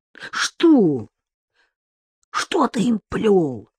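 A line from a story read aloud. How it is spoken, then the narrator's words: Whispered bark, fearing being overheard. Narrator (Russian): рявкнул шепотом, потому что боялся, что его громогласный вопль услышат в доме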